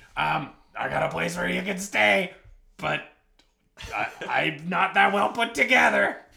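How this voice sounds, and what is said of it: Imitates a cartoon parrot's voice. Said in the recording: “my impression of Iago that I call Triviago ... The Trivago guy, as played by Iago the Parrot, as played by Gilbert Gottfried.”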